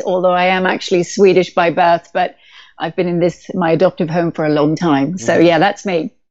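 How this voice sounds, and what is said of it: British accent. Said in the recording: “I'm the one with the British accent”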